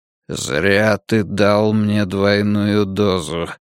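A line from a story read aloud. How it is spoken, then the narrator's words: Mutter. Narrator (Russian): пробормотал Юрик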